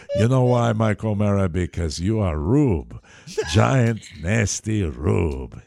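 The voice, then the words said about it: Al Pacino impression, heavy accent. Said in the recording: “Well, I am Al Pacino. ... I wasted your time with my heavy accent.”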